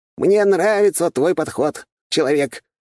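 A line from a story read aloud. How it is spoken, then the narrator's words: Laughing. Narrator (Russian): рассмеялся дракон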